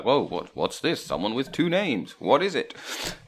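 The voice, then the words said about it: Character voice of a sleeping giant. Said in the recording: “good impression of your sleeping giant”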